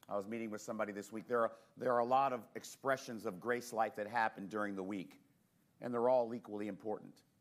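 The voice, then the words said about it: Voice affected by a cold. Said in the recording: “I have a cold this morning”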